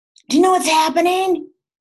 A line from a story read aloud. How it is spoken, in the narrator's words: screeched